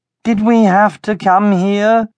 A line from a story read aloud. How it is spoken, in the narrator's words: he groaned